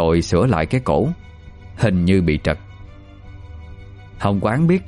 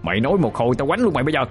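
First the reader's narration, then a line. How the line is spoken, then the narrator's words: Irritated shout. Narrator (Vietnamese): Lâm Phát bực dọc quát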